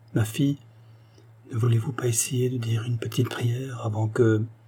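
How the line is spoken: Soft murmur. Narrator (French): murmura doucement la gouvernante

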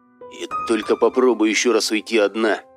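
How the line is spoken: Grumbled threat. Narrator (Russian): пробурчал Серега, пытаясь пригрозить ей

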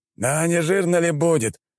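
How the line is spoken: Groaning, barely recovered. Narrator (Russian): простонал командующий аванпостом, который немного очухался

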